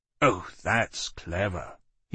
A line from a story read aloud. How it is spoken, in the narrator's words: he said, as if talking sneeringly to a stranger